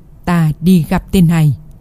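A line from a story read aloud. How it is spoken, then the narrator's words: Cold. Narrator (Vietnamese): Hàm Chân lạnh lùng nói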